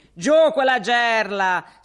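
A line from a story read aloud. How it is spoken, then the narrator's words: Shout. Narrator (Italian): si grida intanto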